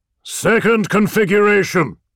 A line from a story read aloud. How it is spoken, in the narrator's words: said Perturabo, his voice clear over the echo and roar